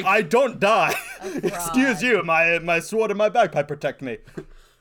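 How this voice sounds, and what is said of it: Character voice with a put-on accent. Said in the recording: “I don't know if this is the same accent”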